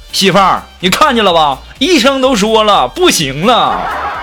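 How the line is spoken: Loud shout. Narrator (Chinese): 那男的大声就喊

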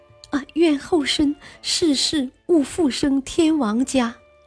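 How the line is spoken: Choked, tearful, grieving. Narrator (Chinese): 皇帝的热泪顺着脸颊刷刷直流，哽咽了半天，说出一句十分伤心的话

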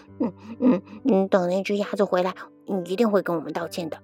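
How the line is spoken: Muttering. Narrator (Chinese): 他们嘀咕道

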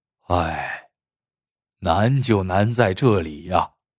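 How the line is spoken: Sighing. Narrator (Chinese): 周明叹了口气，说道

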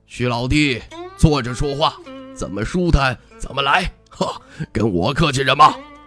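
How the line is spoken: Laughing, friendly. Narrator (Chinese): 那人 他出声笑

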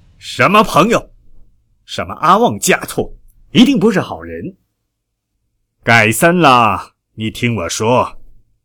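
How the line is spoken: Grieved, furious roar. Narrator (Chinese): 他伤心，他恼怒，终于爆出了一声吼叫

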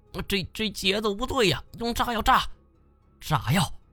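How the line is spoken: Shouting. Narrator (Chinese): 金锁喊道

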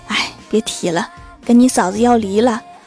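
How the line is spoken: Sighing. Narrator (Chinese): 郭大侠叹了一口气说

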